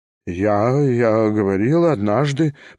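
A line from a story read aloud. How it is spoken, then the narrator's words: Embarrassed babbling. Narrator (Russian): пролепетал Степан Трофимович, весь покраснев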